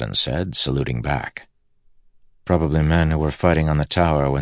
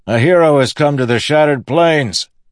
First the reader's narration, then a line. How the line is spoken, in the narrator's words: the soldier yelled back